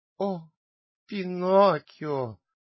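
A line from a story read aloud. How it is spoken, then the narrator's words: Mournful exclamation. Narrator (Russian): воскликнула лисица тоскливым голосом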